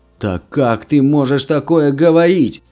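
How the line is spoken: Indignant yelling. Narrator (Russian): возмущенно заорал Бен

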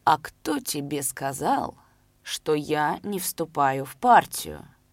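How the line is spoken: Slow, deliberate drawl. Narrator (Russian): медленно, подчеркнуто растягивая слова, спросил Шалый

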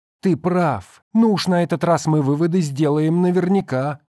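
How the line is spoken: Exclaimed. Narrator (Russian): воскликнул Дэн

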